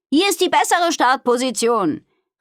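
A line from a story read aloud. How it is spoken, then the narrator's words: Called to others. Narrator (German): rief sie den anderen zu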